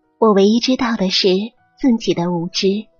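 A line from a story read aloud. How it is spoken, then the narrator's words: Modest. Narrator (Chinese): 谦虚的说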